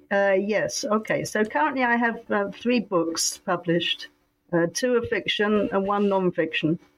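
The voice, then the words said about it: Strained, unwell-sounding voice. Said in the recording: “sorry about my voice today, but I hope it holds out”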